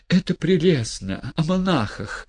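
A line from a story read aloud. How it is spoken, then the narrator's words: Whisper. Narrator (Russian): прошептала Юлия Михайловна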